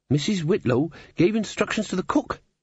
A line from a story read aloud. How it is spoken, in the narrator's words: said Molly nervously